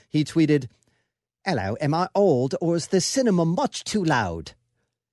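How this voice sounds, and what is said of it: Fabulous put-on Hugh Grant accent. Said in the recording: “that was a fabulous ... Accent.”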